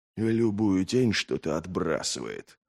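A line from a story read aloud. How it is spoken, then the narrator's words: Northerner growling. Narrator (Russian): прорычал северянин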